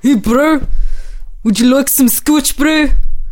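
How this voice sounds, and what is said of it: Poor put-on New Zealand accent. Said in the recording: “attempt a New Zealand accent ... Was that horrible enough for you? ... That was shite.”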